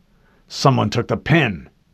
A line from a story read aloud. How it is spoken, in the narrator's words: he growled